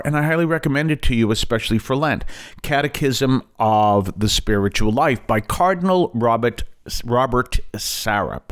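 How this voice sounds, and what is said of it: Boston accent. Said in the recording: “Pardon my Boston accent there.”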